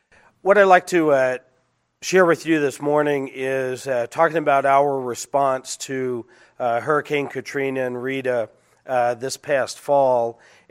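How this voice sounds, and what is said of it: Sick, cold-affected voice. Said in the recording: “I'm also recovering from a cold myself, so I apologize for my voice.”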